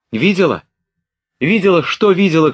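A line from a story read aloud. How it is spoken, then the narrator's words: Shout. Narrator (Russian): крикнула Наташа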